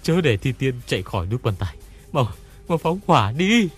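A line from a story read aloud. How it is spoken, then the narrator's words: Old man shouting. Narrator (Vietnamese): Lão ta thét lên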